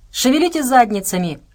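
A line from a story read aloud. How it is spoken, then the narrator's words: Barked. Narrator (Russian): рявкнул Тарас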